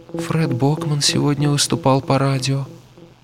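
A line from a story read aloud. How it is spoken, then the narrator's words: Otherworldly voice. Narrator (Russian): сказала она каким-то нездешним голосом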